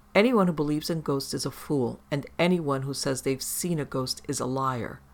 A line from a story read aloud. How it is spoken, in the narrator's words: Sally spat out